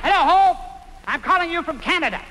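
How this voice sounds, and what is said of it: Talking very loudly. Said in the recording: “Why are you talking so loud?”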